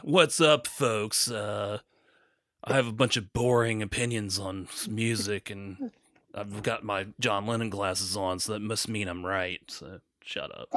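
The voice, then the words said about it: Imitates another person's voice. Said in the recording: “your impersonation of Anthony Fantano”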